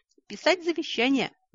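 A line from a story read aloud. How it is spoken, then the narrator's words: Shrieked. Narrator (Russian): взвизгнула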